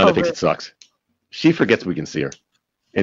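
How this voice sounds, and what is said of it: Usual voice. Nothing is said of it.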